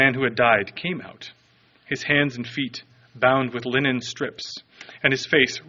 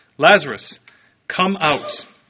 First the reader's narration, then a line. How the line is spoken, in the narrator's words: he cried out in a loud voice